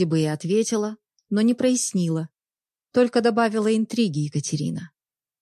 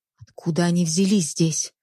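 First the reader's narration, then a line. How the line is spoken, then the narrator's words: Whisper. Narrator (Russian): прошептал Понятовский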